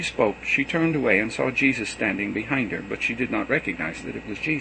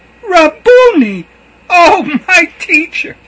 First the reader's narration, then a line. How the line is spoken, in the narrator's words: exclaimed